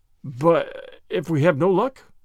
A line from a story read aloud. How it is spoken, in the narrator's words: faltered McAvoy